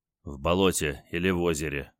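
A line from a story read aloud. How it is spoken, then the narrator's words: Grim joke. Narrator (Russian): мрачно пошутил он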